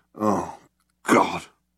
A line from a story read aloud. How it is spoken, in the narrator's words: muttered Zaphod